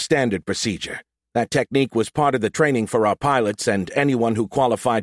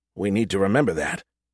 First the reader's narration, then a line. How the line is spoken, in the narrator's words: I muttered softly